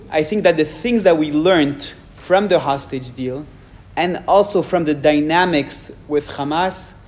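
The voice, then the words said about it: French accent. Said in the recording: “my French accent.”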